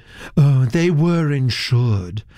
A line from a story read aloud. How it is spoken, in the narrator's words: said Miss Nunn dreamily